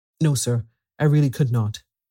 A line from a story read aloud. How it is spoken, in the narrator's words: I answered firmly